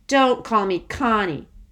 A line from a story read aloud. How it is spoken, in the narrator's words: said crossly